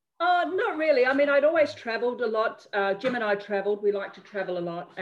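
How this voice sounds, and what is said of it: Non-British accent. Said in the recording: “I'm sure people can can tell from your accent, that you're not originally from the UK”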